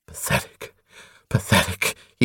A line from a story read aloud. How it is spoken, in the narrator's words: he panted to himself